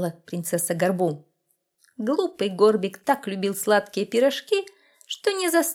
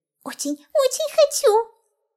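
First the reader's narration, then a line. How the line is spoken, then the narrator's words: Impatient squeak. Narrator (Russian): пропищал в нетерпении Горбик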